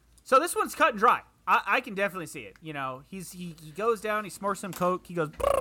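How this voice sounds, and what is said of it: Usual voice. Nothing is said of it.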